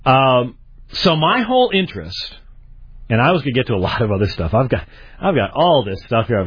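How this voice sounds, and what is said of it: Strained, sick-sounding voice. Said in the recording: “My voice is not in the best shape. I've been fighting an upper respiratory infection for a few days now”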